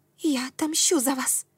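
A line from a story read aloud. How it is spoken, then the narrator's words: Determined female whisper. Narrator (Russian): прошептала она, и во взгляде блеснула стальная решимость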